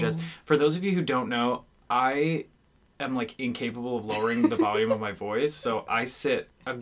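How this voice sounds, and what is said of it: Usual voice. Nothing is said of it.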